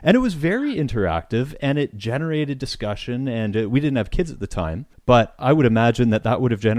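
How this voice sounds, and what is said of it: Usual voice. Nothing is said of it.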